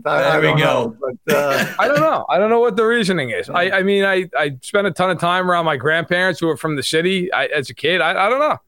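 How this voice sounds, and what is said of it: New York accent. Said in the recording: “He has a New York accent ... Is ... Actually New York or Is It Just a Poser Accent”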